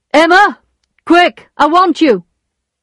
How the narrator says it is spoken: shouted Charles

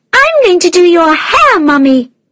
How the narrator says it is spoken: shouted Ellie

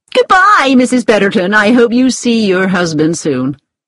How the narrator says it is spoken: she said cheerfully

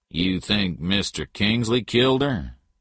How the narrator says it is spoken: Jim Patton asked

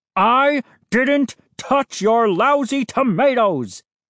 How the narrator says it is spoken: he roared

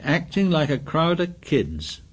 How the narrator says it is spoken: he said scornfully

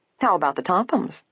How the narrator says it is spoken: Hannah grew in question teasingly

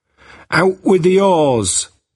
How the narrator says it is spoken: Jack cried

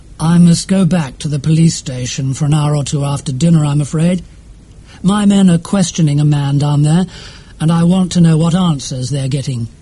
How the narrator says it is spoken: Strickland said

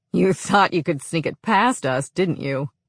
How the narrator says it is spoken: I groaned

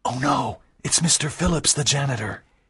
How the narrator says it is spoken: Walter whispered

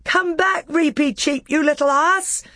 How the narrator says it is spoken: shouted Peter

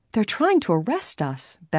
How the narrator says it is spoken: Bess exclaimed

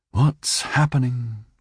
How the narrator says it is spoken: she sighed

